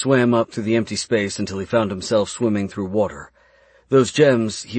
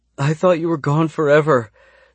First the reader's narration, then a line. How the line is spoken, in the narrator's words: she sobbed in his arms